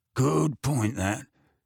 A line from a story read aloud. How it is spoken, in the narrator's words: he grunted